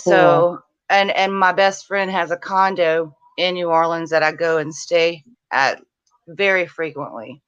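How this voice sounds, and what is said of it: Thick Louisiana accent. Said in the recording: “you can tell the accent. It's pretty thick.”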